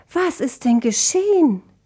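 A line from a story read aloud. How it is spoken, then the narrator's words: Calling out. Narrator (German): rief Dissonantia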